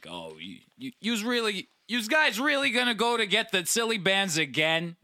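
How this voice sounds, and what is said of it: Put-on Brooklyn accent. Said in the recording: “an old Brooklyn accent ... I just like adapt the Brooklyn accent.”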